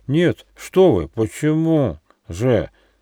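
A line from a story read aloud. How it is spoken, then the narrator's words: Stuttering dragon. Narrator (Russian): ответил дракон, заикаясь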